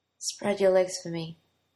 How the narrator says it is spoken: Arthur said in a hoarse voice

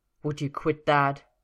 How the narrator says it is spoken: Arthur snapped

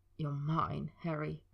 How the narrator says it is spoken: Draco had whispered, his voice cracking over the words

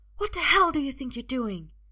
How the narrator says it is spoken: she hisses at her husband

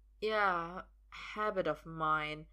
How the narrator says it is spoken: Emrys says slowly

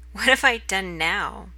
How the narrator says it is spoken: Merlin laughs and says

